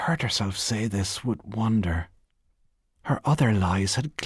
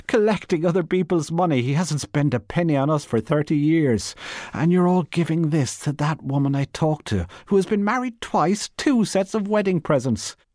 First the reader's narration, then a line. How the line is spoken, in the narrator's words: she cried